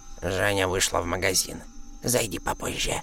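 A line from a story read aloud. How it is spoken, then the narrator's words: Quick creaky reply. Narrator (Russian): быстро ответила она скрипучим голосом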